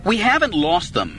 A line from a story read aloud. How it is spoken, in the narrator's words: Anakin snapped